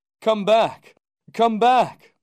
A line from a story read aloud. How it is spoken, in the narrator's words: cried desperately